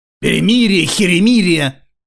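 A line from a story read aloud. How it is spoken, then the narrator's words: Father's bark. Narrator (Russian): рявкнул отец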